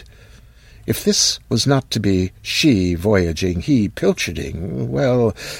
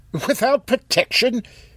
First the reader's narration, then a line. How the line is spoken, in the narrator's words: blurted, as embarrassed